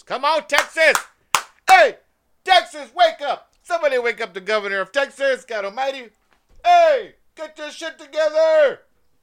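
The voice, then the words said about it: Yelling loudly. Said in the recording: “I'm yelling out the window like he lived next door.”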